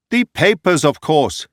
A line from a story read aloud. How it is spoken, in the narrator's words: he cried impatiently